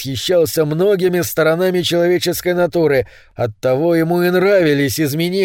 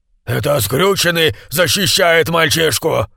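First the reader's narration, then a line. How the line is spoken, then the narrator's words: Growl. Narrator (Russian): прорычал самый доверенный помощник Лероя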